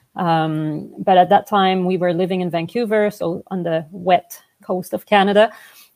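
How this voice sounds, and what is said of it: French Canadian accent. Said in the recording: “I'm originally from Montreal, hence the French accent.”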